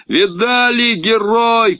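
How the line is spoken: Shouting. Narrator (Russian): кричал Гога

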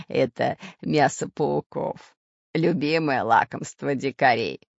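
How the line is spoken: Laughing reply. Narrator (Russian): смеясь, ответил Семен Семенович

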